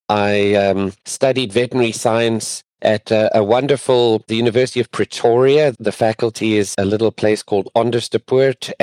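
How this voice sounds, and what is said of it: South African accent. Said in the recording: “You'll notice I have a different accent. I'm actually from South Africa”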